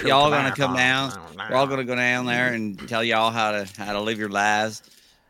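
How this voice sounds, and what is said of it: Put-on Southern twang accent. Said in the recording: “I can just do Southern twang”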